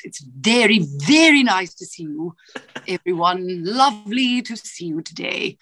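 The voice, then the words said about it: Imitated British accent of another person. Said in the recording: “how's the British accent? ... Or we can do Julie Andrews.”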